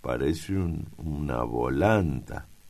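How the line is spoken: Murmuring. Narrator (Spanish): murmura

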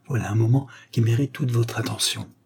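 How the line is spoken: Conspiratorial murmur. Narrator (French): murmura-t-il d'un ton conspirateur

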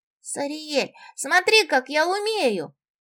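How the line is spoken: Excited shout. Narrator (Russian): Восторженно прокричала Ираида

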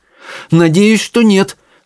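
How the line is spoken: Exclaiming. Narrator (Russian): воскликнула Чармейн

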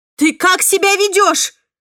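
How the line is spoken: Exclamation. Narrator (Russian): воскликнула я

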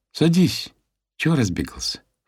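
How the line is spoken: Silky, ingratiating. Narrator (Russian): вкрадчиво произнесла Майя

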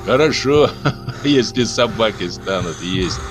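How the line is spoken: Laughing. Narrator (Russian): засмеялся кто-то невидимый в темноте

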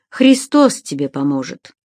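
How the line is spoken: Sigh. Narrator (Russian): вздохнул Эггард

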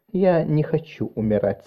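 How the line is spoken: Very quiet speech. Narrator (Russian): сказала Марис очень тихо

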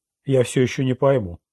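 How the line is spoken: Cold reply. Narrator (Russian): холодно ответил Луиджина

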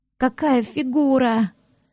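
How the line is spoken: Dreamy sigh. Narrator (Russian): Мечтательно вздохнул

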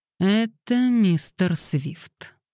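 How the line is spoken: Angry grumble. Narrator (Russian): сердито проворчала Лилиан

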